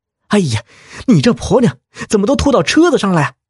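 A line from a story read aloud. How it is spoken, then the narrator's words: Annoyed shout. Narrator (Chinese): 小北的老婆忍不住呕吐起来，小北回过头大喊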